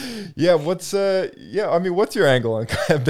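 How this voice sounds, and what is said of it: Usual voice. Nothing is said of it.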